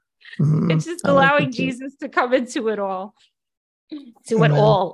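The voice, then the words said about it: Bronx accent. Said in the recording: “I heard my Bronx accent right there”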